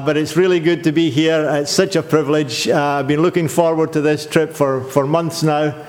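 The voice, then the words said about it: Noticeable non-local accent. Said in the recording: “so they get used to the accent”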